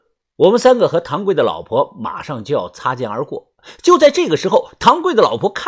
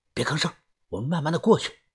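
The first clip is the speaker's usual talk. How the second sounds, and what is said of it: Quiet, hushed speech. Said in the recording (Chinese): “小声的说”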